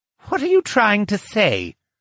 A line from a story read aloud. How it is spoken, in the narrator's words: Lucian snapped